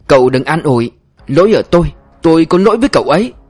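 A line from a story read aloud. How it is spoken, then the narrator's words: Shouting. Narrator (Vietnamese): Anh Hùng thét lên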